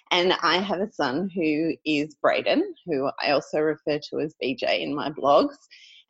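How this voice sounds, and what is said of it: Australian accent. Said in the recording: “I'm from Australia, which you can probably tell from my accent.”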